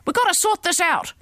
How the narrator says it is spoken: she yelled

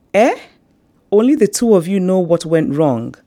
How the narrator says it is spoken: the younger aunt cried out reproachfully

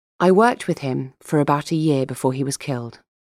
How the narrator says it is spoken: she said

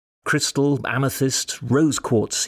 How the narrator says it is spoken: he said

